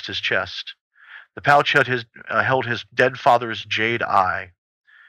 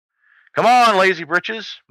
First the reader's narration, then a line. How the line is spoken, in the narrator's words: Mutt shouted back over his shoulder, grinning